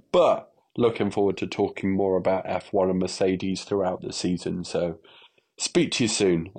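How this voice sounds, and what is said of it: Stuffy, congested voice. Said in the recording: “I've had a bit of a cold, so that's why my voice is like this.”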